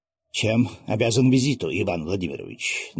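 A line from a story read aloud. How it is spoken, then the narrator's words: Tense nobleman's question. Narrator (Russian): напряженным голосом спросил дворянин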